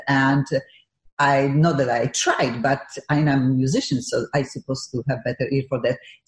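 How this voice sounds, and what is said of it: Eastern European accent. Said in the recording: “I never lost my funky Eastern European accent.”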